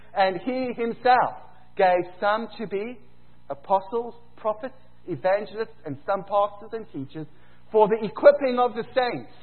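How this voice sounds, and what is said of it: South African accent. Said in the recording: “South African accent”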